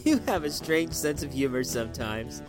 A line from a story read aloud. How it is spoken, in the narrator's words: said stiffly